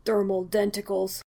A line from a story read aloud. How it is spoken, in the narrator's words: Steve muttered